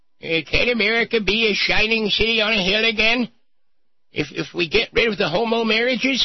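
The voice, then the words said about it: Cranky old man voice. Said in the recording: “cranky old man voice”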